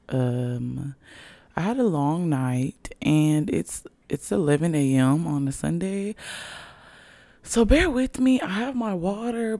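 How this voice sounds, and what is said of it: Raspy voice. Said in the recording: “My voice does sound a little raspy. ... my voice sounds so raspy.”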